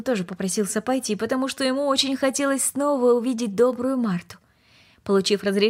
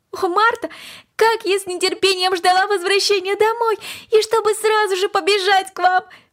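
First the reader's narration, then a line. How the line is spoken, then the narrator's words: Exclaimed. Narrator (Russian): воскликнула Корнелли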